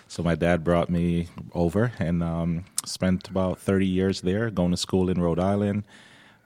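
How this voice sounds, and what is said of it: Slight accent. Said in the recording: “I detected a little bit of an accent there”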